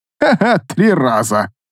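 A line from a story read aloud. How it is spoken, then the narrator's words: Guard, laughing. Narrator (Russian): хохотнул один из стражей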